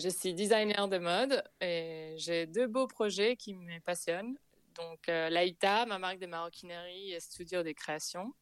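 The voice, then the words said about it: Slight foreign accent. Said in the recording (French): “J'entends un petit accent.”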